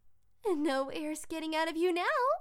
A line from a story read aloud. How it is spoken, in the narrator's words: Vaughn giggled